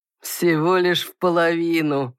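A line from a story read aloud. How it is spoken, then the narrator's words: Booming laughter. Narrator (Russian): громогласно рассмеялся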